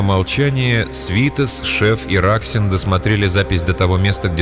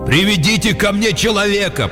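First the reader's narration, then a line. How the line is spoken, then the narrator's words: Shouted through a screen. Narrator (Russian): крикнул Катя с экрана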